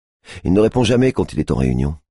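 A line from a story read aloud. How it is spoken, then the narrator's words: Curt reply. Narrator (French): réplique-t-elle sèchement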